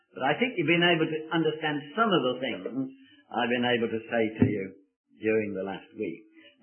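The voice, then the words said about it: Birmingham English accent. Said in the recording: “coming from Birmingham in England, I'm the Praise him for his grace and fever type of person”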